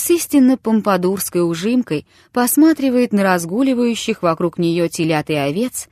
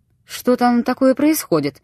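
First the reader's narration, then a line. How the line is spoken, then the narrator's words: Commanding, authoritative question. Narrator (Russian): спросил он свойственным ему начальственным тоном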